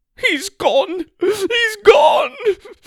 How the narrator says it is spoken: she cried

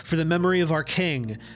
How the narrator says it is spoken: The veteran cried

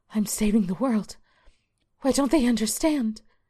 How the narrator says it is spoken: Karen stands in the pouring rain, sobbing, and whispers

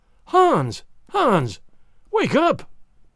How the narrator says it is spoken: cried

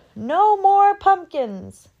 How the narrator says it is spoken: The frazzled mayor shouted

